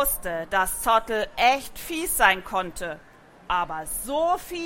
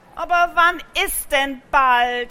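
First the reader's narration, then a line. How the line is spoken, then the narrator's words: Loud exaggerated sigh. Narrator (German): seufzte extra laut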